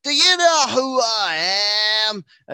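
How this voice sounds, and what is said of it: Drunken thick Southern accent. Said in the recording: “super drunk and her like Southern accent is thick ... impression wasted”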